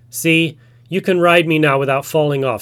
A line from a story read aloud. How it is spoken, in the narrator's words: said Tiger